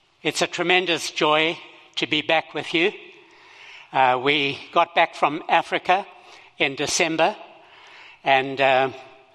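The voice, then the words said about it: Zimbabwean English accent. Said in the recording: “I have a foreign accent. I was born in Zimbabwe and grew up there, and this is the way we speak over there.”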